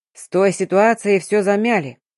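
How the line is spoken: Irritated interruption. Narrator (Russian): раздраженно перебил Дмитрий Сергеевич

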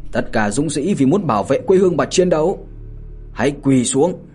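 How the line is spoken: Loud commanding shout. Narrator (Vietnamese): Mạnh Hổ lớn tiếng mà quát

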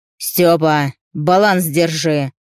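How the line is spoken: Stern shout over wind. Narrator (Russian): строго прикрикнул Захар, и его голос прорвался сквозь завывание ветра

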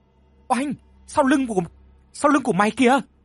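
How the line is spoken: Terrified scream. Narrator (Vietnamese): Dung liền kinh hãi hét lên

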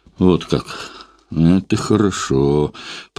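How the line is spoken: Drawled. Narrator (Russian): протянул он

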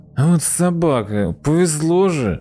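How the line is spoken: Near-pleading. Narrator (Russian): Чуть ли не взмолился Егор

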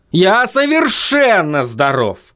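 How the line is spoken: Yelling. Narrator (Russian): завопил Вильям

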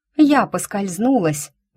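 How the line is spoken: Exclaimed. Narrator (Russian): воскликнула я

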